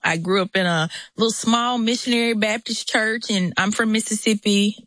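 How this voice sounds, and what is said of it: Southern US accent. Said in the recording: “you hear the Southern accent”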